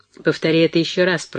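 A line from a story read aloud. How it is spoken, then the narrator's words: Mumbling. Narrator (Russian): пробурчал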